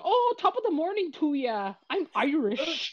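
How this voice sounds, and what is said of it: Exaggerated fake Irish accent. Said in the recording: “He was very much doing the Lucky Charms accent.”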